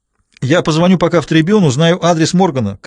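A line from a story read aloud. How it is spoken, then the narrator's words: Shouting after someone. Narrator (Russian): крикнул он ей вслед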